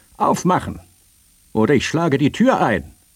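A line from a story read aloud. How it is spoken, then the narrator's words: Called out again. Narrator (German): rief dieselbe Stimme nochmals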